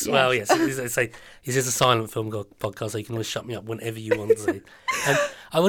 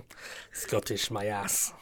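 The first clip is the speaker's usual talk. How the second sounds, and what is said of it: Put-on Scottish accent, very good. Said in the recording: “Is that your Scottish accent? ... It was my Scottish accent. ... And it's very, very good.”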